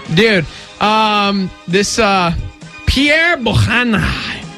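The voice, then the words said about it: Put-on accent on a name. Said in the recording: “I don't know why I had that accent.”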